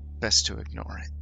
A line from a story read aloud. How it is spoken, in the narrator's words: He sighs and says